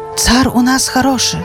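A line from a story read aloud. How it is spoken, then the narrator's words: Hushed whispering. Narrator (Belarusian): Прыціхлі тлустыя вельможы, шапталі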